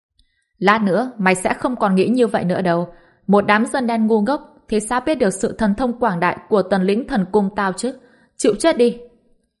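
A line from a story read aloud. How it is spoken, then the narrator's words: Laughing madly. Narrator (Vietnamese): Bạch Lộc Lâm bật cười điên cuồng, đáp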